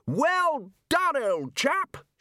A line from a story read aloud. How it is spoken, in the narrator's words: shouted Ridcully across the water